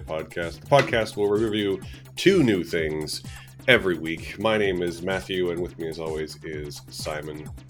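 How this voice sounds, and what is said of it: Very deep, low, sick-sounding voice. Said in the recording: “you're in full Barry White mode today. Like, your already low voice has now sunk a further 3 octaves to be real sexy ... that's what happens when I get sick”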